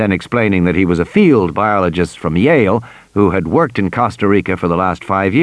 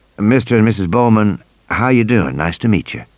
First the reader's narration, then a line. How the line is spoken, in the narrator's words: saying in a soft southern accent